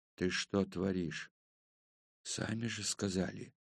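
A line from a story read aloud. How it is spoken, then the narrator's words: Hissing under the noise. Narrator (Russian): пользуясь общим шумом, прошипел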